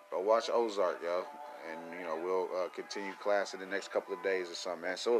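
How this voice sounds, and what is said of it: Strained, failing voice. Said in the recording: “my voice is giving out”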